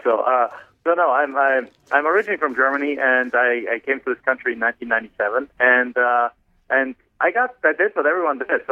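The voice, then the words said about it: German accent. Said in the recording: “I'm actually from Germany originally. So you can probably tell from my accent, I sound like Arnold Schwarzenegger”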